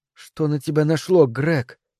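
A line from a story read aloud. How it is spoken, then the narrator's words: Quiet, disbelieving question. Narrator (Russian): тихо, как будто не веря самой себе, спросила она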